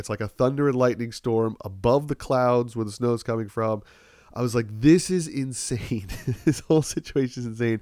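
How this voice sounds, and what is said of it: Congested, stuffed-up voice. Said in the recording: “my voice is a little wonky today... It's not even a bad cold. It's just all congestion... now it's just, I'm all kind of like stuffed up”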